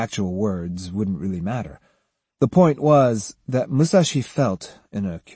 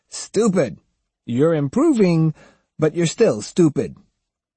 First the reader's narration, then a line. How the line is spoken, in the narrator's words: Being Takuan, he would laugh and say